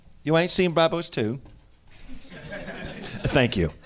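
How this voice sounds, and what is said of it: Deliberately bad put-on British accent. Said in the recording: “flawless, terrible British accent ... That was Australian.”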